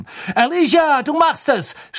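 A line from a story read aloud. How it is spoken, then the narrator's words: Shouted into silence. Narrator (German): schrie Lee in die Stille hinein, die sich über die Menge gesenkt hatte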